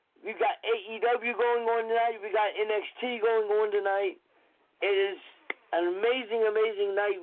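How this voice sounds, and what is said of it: Congested voice from a cold. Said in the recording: “Please excuse my voice, I do have a little bit of a cold”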